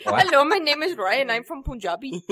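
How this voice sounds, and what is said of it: Put-on Indian accent. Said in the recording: “end up talking like this ... I'd like to apologize to our Indian listeners right now ... That's what you end up sounding like. It sounds really funny.”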